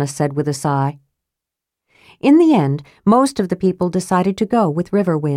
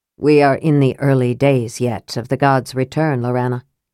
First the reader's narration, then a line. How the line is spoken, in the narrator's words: said Elistan